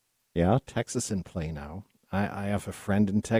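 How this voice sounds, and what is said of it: Usual voice. Nothing is said of it.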